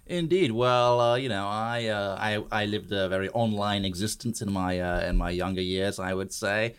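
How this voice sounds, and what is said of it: Accent different from usual guests. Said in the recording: “You have a little bit of a different accent than most of our podcast guests”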